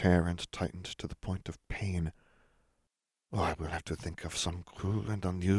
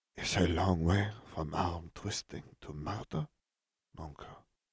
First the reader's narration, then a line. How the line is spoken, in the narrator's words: Fleur murmured